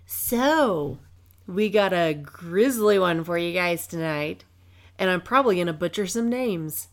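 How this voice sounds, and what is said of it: Stuffy, slightly raspy voice. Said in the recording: “I'm still getting over my sinus infection, upper respiratory infection thing. So, I'm still a little stuffy. Still a little raspy.”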